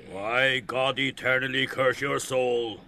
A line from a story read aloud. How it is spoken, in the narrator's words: Ben Dollard growled furiously